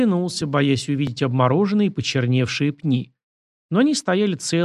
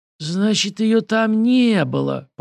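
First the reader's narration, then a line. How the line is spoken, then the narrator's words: Hoarse wheeze. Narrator (Russian): просипел Александр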